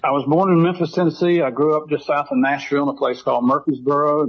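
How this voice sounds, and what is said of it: Southern Appalachian American accent. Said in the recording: “I'm kind of a cross between a redneck and a hillbilly, which explains my accent here.”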